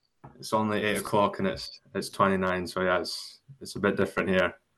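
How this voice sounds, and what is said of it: Accent with a slight Australian tinge. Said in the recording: “his accent's changed already? ... His accent, there's a bit of Australian in that accent already.”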